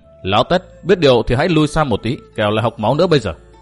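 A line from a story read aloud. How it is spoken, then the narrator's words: Cold. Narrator (Vietnamese): Ngô Minh lạnh lùng nói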